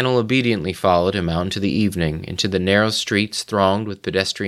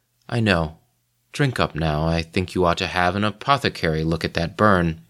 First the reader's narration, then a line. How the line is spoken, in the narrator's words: smiled and said in his soft voice